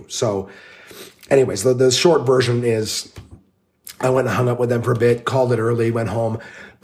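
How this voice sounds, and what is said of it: Voice still audibly affected, rough. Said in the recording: “you can hear my voice still ... my voice is still affected”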